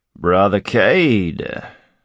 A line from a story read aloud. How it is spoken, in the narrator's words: growled a rum-roughened voice